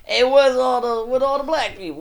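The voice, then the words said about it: Put-on New York accent. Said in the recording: “I think that's a New York accent, actually.”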